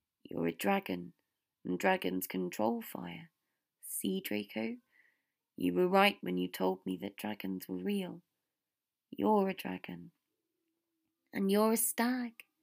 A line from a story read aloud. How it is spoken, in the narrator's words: Harry said, sighing into Draco's hair